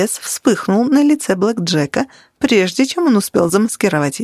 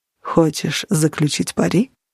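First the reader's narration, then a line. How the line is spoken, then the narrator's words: Soft question. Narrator (Russian): мягко спросил Нигер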